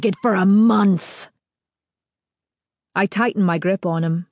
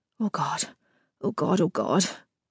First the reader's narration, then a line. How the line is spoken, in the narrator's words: I mumble